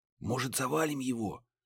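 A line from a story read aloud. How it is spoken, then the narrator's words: Whispered. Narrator (Russian): прошептал Муха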